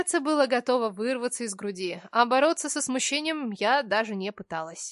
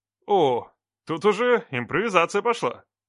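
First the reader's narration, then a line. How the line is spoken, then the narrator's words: Amused snort. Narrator (Russian): Хмыкнул Марк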